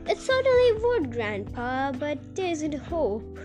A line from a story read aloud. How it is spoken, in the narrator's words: Charlie said sadly